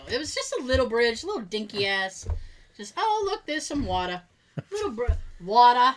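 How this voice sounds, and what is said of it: Strong Boston accent. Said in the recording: “I never sounded more Bostonian than I just said... I am very conscious of my accent... the podcast with Boston accents”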